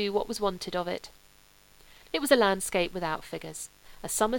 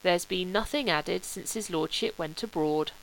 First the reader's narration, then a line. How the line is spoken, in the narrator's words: said Wilcox